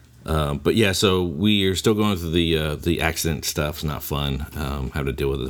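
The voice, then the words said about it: Lower, sore-throated voice. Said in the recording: “My throat is hurting ... my voice will be a little bit lower, like a sexy DJ.”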